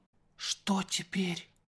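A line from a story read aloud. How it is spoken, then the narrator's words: Whisper. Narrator (Russian): прошептал он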